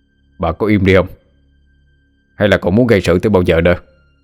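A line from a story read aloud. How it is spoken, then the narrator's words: Angry shout. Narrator (Vietnamese): ông Hùng trừng mắt lên quát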